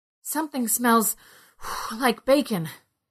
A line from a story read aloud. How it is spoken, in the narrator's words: Ned said between gasps